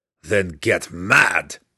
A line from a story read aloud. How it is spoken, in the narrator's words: Belwar growled